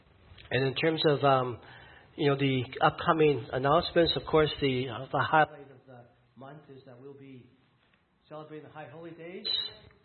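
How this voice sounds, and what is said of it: Hoarse, failing voice. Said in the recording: “I've lost my voice again.”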